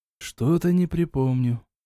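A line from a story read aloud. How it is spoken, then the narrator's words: Tired smiling voice. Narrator (Russian): устало улыбнулся ушастик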